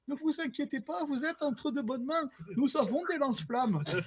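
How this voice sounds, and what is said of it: Put-on German accent in French. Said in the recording (French): “avec un accent allemand ... belle imitation”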